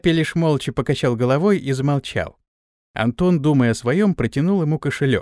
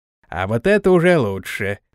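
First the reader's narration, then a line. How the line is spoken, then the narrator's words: Grumbling. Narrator (Russian): пробурчал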